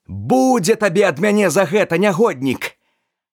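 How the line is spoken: Male shout. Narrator (Belarusian): крыкнуў

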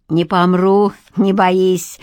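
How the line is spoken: Carefree chuckle. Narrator (Russian): хохотнула Ракоцкая беспечно

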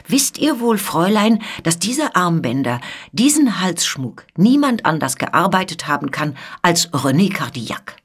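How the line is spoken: Called out. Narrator (German): die Marquise rief

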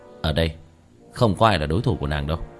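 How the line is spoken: Scornful smile. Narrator (Vietnamese): Tiểu Thất cười nhạt

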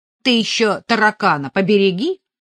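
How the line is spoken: Scornful snort. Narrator (Russian): фыркнула Катя

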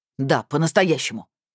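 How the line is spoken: Barked. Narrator (Russian): рявкнул участковый

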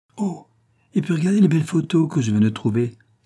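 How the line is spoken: Exclaiming. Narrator (French): s'exclama Michaud

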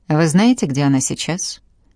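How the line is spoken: Curt, clipped. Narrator (Russian): отрывисто бросил он

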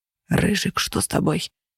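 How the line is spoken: Whisper. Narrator (Russian): раздался шепот

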